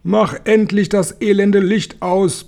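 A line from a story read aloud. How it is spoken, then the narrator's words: Bellowing. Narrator (German): brüllte er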